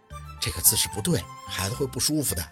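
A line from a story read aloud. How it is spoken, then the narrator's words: Quiet reminder. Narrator (Chinese): 沈明雅小声的提醒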